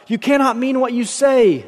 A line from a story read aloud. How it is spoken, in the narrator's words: the other shrieked